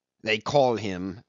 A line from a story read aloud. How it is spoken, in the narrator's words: said Cornelius scornfully